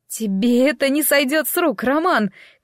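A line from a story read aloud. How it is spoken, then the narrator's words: Theatrical rehearsed shout. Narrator (Russian): крикнула, произнося эту реплику точно так же, как во время съемок этой сцены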